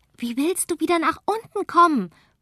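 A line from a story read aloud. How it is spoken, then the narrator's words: Calling back. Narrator (German): ruft die zurück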